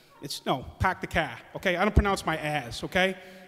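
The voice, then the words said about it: Put-on Boston accent. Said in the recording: “all those freaking movies with the Boston accent ... tell them how it's really done”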